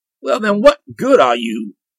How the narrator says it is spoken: cried the king in fury

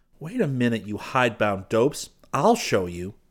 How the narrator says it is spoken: Seton snapped

